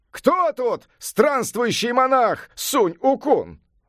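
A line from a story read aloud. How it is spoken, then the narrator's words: Shouting at full voice. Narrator (Russian): закричал во все горло волшебник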